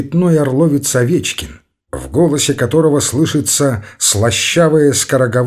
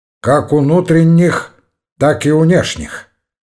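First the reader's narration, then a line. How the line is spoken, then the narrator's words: Gloomy. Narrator (Russian): мрачно добавил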